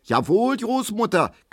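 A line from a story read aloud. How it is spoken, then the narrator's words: Shrieking. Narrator (German): kreischt Frau Ziebland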